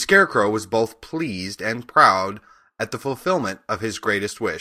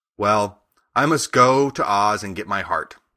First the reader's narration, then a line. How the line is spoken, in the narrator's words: said the Woodman